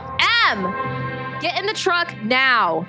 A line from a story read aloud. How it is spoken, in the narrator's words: yelled